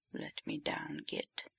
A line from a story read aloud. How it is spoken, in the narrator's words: mumbles